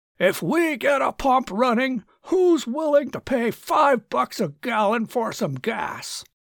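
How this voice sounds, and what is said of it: Booming loud male voice. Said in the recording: “in a booming voice”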